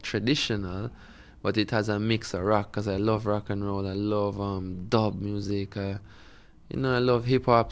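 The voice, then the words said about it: Jamaican accent. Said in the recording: “my Jamaican accent”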